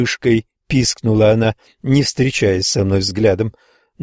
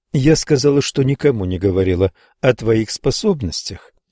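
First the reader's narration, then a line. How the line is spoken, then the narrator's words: Plain. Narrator (Russian): ответила Кэти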